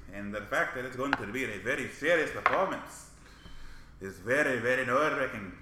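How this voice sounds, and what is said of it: Speaking in a put-on accent. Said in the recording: “stop talking in this accent now.”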